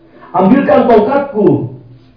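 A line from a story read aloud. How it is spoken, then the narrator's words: Shout. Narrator (Indonesian): teriak putra Muawiyah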